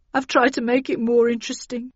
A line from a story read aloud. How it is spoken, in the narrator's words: he sobbed